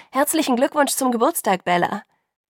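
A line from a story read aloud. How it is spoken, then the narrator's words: Loud chorus shout. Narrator (German): riefen sie laut im Chor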